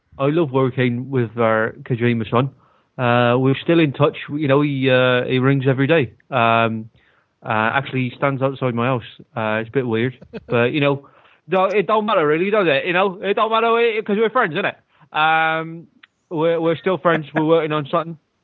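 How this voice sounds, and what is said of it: Put-on West Country English accent. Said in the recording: “I've got a great accent for you that you've never really done much before. A West Country accent”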